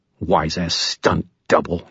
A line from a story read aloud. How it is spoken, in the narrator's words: he snarled